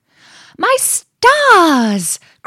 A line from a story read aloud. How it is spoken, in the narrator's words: cried the mouse, while his eyes beamed with glee